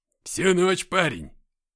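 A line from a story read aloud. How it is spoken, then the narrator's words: Loud laughter. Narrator (Russian): захохотал Шон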